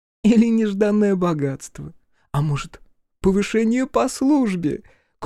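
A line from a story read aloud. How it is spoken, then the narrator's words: Good-natured giggling. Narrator (Russian): Кухарка продолжала беззлобно хихикать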